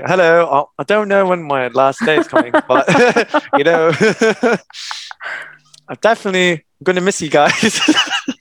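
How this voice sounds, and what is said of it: Put-on British accent. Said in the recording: “so I had a British accent ... You've got the ringing of that British accent in there.”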